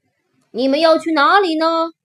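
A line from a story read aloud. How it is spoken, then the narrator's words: Shouting. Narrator (Chinese): 我对着车里的人大叫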